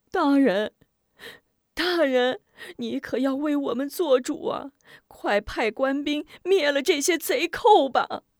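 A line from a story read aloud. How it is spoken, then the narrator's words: Crying pleading. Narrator (Chinese): 乡亲们哭求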